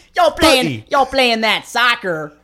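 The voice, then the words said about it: Put-on Texan accent. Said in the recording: “You got to say soccer with a, like a Texan. Like a Texan.”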